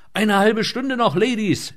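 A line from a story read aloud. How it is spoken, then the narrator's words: Shouted back. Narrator (German): schrie zurück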